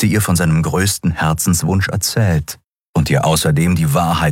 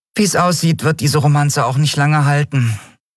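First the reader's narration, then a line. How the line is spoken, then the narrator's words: Sigh. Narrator (German): seufzte die Yadi schließlich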